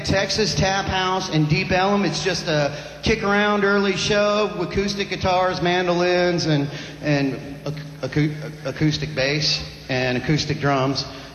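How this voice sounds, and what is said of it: Texas accent. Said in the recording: “Texas accent”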